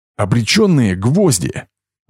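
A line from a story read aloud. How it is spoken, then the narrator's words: Joyful. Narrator (Russian): радостно произнес Денис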